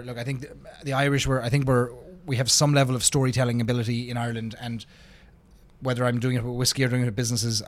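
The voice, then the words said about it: Irish accent. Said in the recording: “Does the accent help?”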